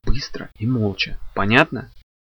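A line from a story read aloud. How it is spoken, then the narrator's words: Whisper in ear. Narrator (Russian): прошептал ей на ухо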